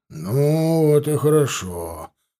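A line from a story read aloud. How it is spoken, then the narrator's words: Satisfied sigh, man. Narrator (Russian): вздохнул удовлетворенно дядька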